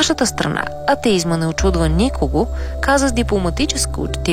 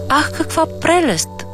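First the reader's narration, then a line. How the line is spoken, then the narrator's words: Strange foreigner exclaiming. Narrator (Bulgarian): възкликна странният чужденец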